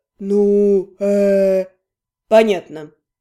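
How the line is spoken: Drawled. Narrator (Russian): протянул Адриен

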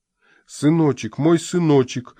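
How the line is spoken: Sobbing. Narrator (Russian): всхлипнул фермер

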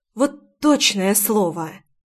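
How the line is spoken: Whisper. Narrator (Russian): прошептала я

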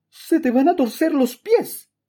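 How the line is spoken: Aunt exclaiming inside. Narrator (Spanish): exclamó mi tía dentro del almacén

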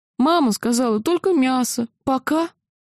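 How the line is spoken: Sobbing. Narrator (Russian): всхлипнул

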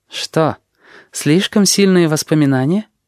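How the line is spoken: Soft, smiling. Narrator (Russian): Мягко улыбнулась она

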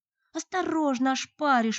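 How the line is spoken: Exclaimed. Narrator (Russian): воскликнула подруга

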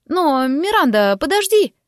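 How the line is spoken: Exclamation. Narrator (Russian): воскликнула

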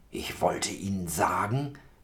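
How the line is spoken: Restrained whisper. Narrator (German): flüstert er mit verhaltener Stimme

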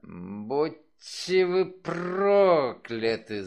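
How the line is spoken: Angry hiss. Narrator (Russian): зло прошипела она

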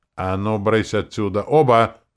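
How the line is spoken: Baron's roar. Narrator (Russian): взревел барон

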